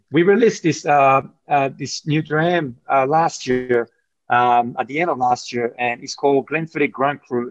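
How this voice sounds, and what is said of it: French accent. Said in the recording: “as you can tell from my accent, you know, I grew up in France”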